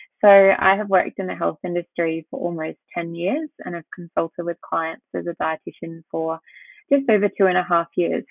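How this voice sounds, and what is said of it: Australian accent. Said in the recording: “as you can tell by my accent, and as you've just mentioned, I'm from Australia.”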